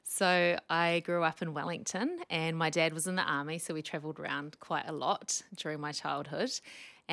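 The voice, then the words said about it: Strong New Zealand accent. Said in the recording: “I grew up in New Zealand. You can tell from the very strong accent I haven't managed to lose.”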